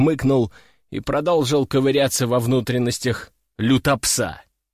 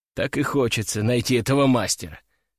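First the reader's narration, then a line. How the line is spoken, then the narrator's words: Muttered under breath. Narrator (Russian): пробормотал я себе под нос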